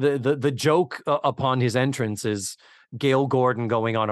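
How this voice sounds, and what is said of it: Usual voice. Nothing is said of it.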